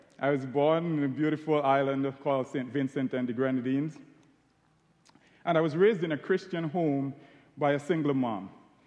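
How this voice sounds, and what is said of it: Caribbean accent. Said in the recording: “As you can tell from my accent, I'm Caribbean.”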